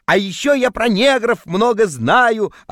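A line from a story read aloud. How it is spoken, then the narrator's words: Yelling in sleep. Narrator (Russian): орал я во сне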